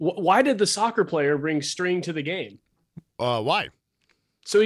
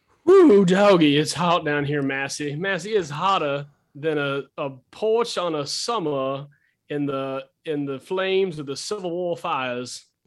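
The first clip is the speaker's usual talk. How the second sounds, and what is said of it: Put-on Southern Belle accent. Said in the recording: “I liked your Southern Belle accent”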